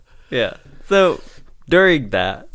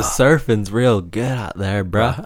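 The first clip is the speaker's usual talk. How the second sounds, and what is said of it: Surfer dude voice. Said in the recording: “I think I just sounded like a surfer, bro.”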